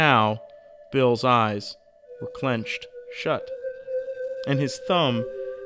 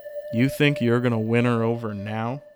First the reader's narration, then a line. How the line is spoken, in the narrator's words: Roy asked, laughing to himself